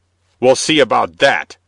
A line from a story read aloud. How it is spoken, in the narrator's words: cried the bishop triumphantly